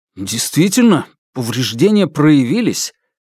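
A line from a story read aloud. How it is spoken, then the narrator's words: Exclamation. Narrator (Russian): воскликнул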